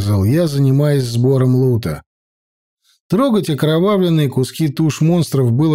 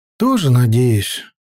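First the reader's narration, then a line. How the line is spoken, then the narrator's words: Sighing uncle. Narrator (Russian): вздохнул дядя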